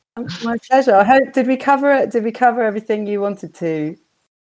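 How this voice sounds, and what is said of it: Croaky, partly lost voice. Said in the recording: “my voice is a bit croaky. I've sort of lost my voice a bit this week”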